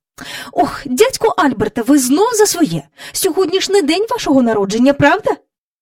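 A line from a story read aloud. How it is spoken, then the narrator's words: Angry speech. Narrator (Ukrainian): Мері Поппінс сердито сказала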